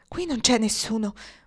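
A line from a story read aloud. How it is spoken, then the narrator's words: Echoing whisper. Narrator (Italian): bisbigliò Luke Cotter, mentre le scure pietre della parete le rimandavano l'eco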